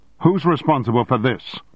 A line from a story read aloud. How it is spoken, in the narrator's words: shouted